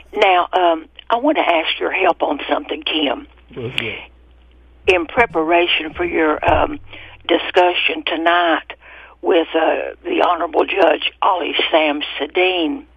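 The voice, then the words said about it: Voice of someone feeling unwell. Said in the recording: “Excuse my voice. I'm not feeling well today.”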